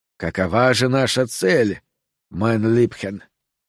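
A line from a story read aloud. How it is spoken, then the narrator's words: Whispered. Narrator (Russian): прошептал Вилли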